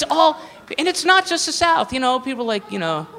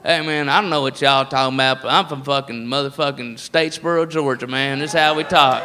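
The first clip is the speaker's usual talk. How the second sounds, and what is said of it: Put-on redneck Southern accent. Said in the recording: “the redneck voice is all over the place”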